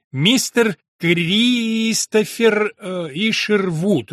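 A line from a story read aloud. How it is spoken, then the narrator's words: Careful drawl, as if reading. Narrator (Russian): Очень осторожно, как будто читая из бумаги, протянул доктор Бергман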